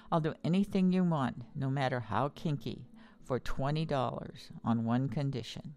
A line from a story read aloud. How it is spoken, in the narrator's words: the man merely leaned over and whispered in her ear